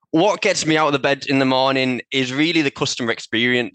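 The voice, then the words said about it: Middlesbrough English accent. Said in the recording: “You might notice a somewhat familiar accent. I'm actually from Middlesbrough”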